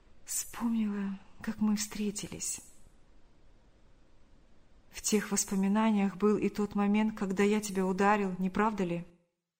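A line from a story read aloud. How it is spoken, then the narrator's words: Sighing, barely audible whisper. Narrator (Russian): Вздохнув, она еле слышно прошептала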